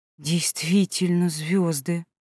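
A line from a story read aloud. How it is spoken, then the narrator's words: Amazed whisper. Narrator (Russian): прошептала, не отводя изумленного взгляда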